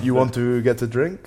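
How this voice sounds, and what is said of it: Put-on French accent. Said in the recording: “Why are you speaking in a French accent?”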